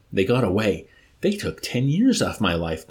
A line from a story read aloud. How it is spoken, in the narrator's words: Dunbar exclaimed